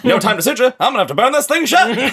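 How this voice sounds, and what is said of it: Put-on transatlantic accent. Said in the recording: “read all of Annie's dialogue out loud in a transatlantic accent”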